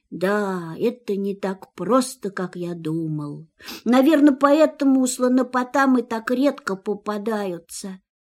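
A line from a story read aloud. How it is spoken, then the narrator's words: Sad. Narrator (Russian): грустно добавил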